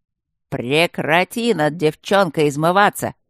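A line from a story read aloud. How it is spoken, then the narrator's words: Loud bark, echoing. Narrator (Russian): гаркнул Аристарх, и гулкое эхо прокатилось по пустому коридору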